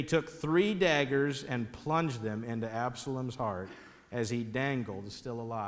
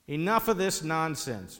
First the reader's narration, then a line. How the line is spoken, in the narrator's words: Joab said